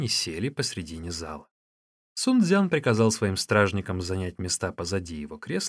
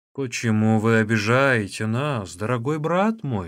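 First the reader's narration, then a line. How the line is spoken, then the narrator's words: Plain. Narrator (Russian): спросил Чаогай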